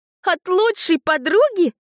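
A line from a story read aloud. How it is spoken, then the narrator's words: Bursting out laughing. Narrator (Russian): расхохоталась я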